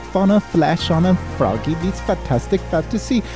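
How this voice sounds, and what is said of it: Strange put-on accent. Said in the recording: “I don't know why I've taken on this strange accent.”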